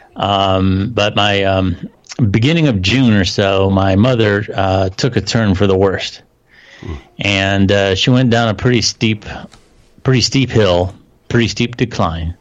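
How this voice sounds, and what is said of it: Weak, tired voice. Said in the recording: “my voice is a little weak”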